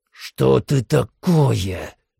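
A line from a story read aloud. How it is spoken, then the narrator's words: Hissing. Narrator (Russian): прошипел Мачадо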